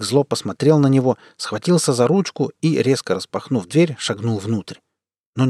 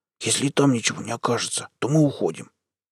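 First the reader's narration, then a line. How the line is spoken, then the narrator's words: Irritated whisper. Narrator (Russian): Макс раздраженно прошептал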